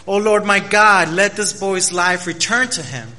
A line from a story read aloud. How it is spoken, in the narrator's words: cried to the Lord